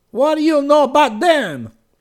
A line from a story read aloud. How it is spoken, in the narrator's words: He cried